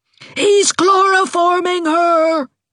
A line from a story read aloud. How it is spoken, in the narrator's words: shrieked Aunt Mouser